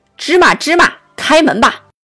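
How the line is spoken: Loud shout. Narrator (Chinese): 他也大声喊道

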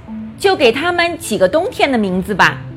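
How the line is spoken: Loud shout. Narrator (Chinese): 马丁他大声地叫道

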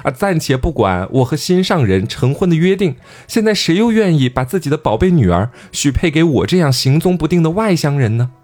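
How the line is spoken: Sobbing, tearful. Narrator (Chinese): 大成听完之后就哇哇哭呀，就流着眼泪说

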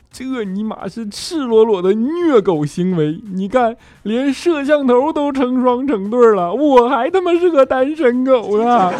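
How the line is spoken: Crying while speaking. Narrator (Chinese): 肖钦就一边哭一边说

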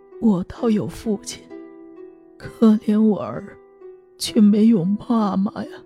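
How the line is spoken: Crying. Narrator (Chinese): 长亭 哭着说道

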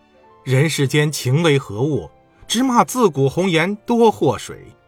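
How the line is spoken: Angry sighing. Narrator (Chinese): 谷子气得要死，他直叹呐

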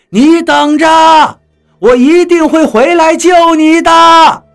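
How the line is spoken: Shouting through cupped hands. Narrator (Chinese): 我把手放到嘴边，弄成喇叭状，对着张广川喊了一声

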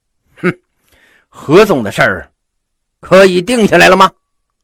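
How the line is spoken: Loud question. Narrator (Chinese): 毛遂 他大声的问了一句

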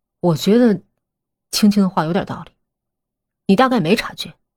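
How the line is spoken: Calm, indifferent. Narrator (Chinese): 风影淡淡道

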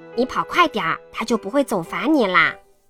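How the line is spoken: Quiet voice. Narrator (Chinese): 安迪 小声说

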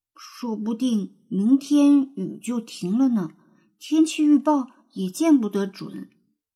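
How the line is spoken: Sighing soft mutter. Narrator (Chinese): 安雄叹了口气，轻声嘀咕

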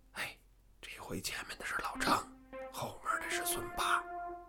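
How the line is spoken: Whispering to each other. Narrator (Chinese): 乡民们又低声地彼此告诉

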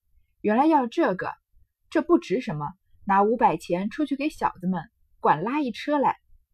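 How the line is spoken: Laughing. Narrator (Chinese): 宝玉笑道

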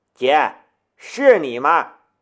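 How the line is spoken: Loud involuntary cry. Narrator (Chinese): 南明也会忍不住大叫

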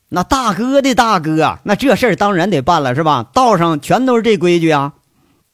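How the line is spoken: Loud group shouting. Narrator (Chinese): 这一群混混扯着嗓子大喊

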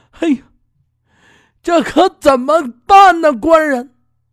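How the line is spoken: Crying, torn between fear and joy. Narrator (Chinese): 这心里也说不出来是怕还是高兴，就哭着跟他说

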